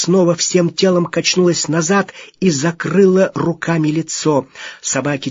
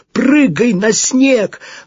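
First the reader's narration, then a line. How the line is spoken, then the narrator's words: Shout. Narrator (Russian): Он еще раз крикнул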